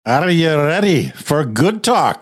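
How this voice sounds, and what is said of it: Weak attempt at Scottish accent. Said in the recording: “a pretty sad effort at trying to sound Scottish ... It wasn't bad. It wasn't bad.”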